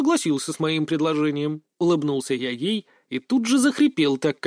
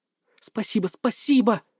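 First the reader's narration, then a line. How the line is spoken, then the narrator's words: Mumbling. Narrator (Russian): бормотала она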